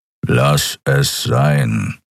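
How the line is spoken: Growled. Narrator (German): knurrte er

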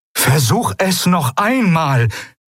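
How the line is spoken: Called out. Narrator (German): rief das Eidolon

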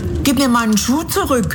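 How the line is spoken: Called out. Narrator (German): rief Dorothy

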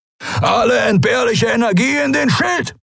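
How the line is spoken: Roar. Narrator (German): brüllte Askur von den Kemcha'an

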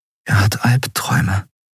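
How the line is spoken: Whispered. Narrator (German): flüsterte Endriel

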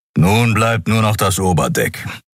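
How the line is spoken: Growl. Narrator (German): knurrte er

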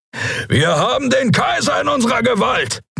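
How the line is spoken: Roar. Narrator (German): brüllte Keru

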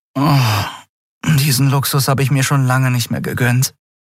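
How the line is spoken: Sigh. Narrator (German): seufzte sie

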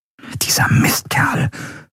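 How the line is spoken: Whispered. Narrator (German): flüsterte Endriel

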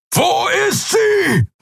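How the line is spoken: Roaring shout. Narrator (German): brüllte er

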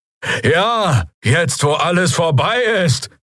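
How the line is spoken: Called out from crowd. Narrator (German): rief jemand aus den Reihen der Bürger, der Stimme nach ein Draxyl

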